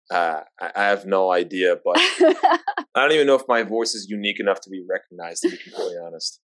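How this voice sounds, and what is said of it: New York accent. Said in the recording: “You just sound like you're from Queens ... It's a New York accent.”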